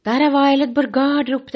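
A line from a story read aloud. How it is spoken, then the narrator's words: Shouted. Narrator (Norwegian): var det en som ropte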